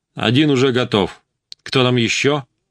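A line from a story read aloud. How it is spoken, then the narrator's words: Deep calm voice. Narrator (Russian): Басовитый голос спокойно произнес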